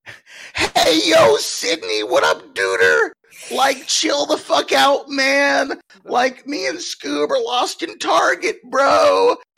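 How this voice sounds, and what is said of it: Poor Shaggy cartoon character impression. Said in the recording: “a very poor impression of Shaggy from Scooby Doo ... that poor impression of Shaggy from Scooby Doo ... Oh, it's terrible ... that's pretty good”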